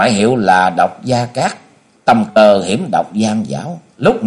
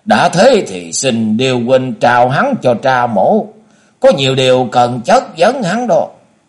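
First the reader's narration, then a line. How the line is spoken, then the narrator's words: Sneering. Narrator (Vietnamese): Bác Bích Tù La cười nhạt rồi nói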